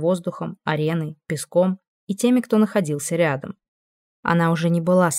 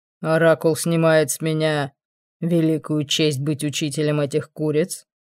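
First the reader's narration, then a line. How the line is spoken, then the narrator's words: Mocking question. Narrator (Russian): Насмешливо спросил Амон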